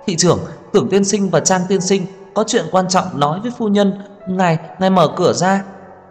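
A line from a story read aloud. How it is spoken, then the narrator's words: Loud yelling. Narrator (Vietnamese): Tiểu Ninh gào to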